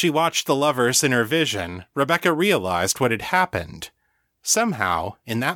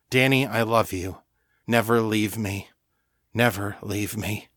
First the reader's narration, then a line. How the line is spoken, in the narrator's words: Jared held her in his arms and whispered